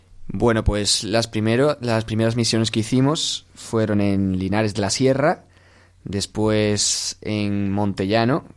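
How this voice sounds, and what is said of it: Sevillian Spanish accent. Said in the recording (Spanish): “por vuestro acento, nuestros oyentes ya saben que no sois alemanes, sino que sois seguramente sevillanos”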